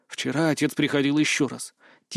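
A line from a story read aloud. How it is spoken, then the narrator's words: Quiet. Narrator (Russian): тихо сказал Люк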